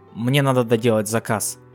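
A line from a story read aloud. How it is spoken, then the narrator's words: Plain. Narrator (Russian): ответил жеребец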